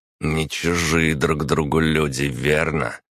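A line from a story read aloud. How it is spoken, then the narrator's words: Through gritted teeth. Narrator (Russian): процедил Виталя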